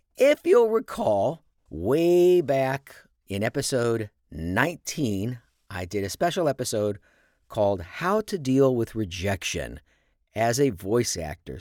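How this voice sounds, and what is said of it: Happy, upbeat voice. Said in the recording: “perhaps you can hear it in my voice. I am pretty happy right now.”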